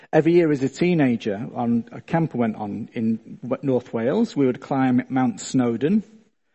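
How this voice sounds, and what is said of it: Slight Australian-sounding accent. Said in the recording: “I'm not from round here. And you probably think I've got a bit of an accent ... I get plenty of stick for sounding Australian.”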